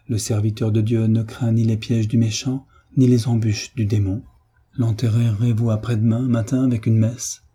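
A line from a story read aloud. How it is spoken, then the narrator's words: Calm. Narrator (French): dit-il d'une voix calme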